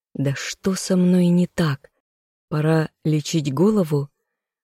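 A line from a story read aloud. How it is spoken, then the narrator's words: Inner groan. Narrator (Russian): застонал мысленно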